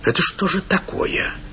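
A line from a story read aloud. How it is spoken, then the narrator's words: Quiet stern speech. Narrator (Russian): сказал тихо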